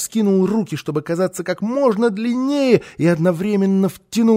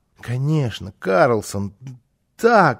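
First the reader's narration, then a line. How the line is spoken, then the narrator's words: Child babbling, stuttering excitedly. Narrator (Russian): залепетал малыш, заикаясь от волнения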